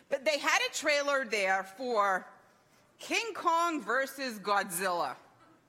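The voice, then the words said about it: British accent. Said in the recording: “See, now you know the accent. ... Brits”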